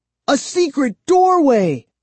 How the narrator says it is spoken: I cried excitedly

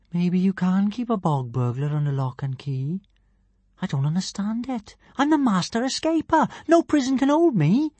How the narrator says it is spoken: she said sadly

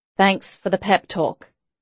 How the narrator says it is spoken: Pam muttered, she had more misgivings than she'd revealed

